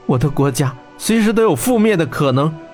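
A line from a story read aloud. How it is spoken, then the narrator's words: Breathless. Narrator (Chinese): 他喘气地说道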